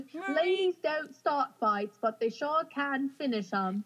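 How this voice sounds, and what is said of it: Put-on English accent. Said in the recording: “That's my English accent.”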